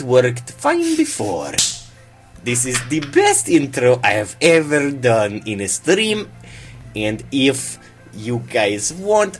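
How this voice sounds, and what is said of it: Deliberately bad put-on Russian accent. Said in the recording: “I will continue to do this stream in the worst Russian accent you've ever heard in your life ... do the entirety of the stream in this accent”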